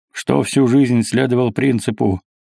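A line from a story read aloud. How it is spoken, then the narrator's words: Snorting grunt. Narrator (Russian): хмыкнул кумай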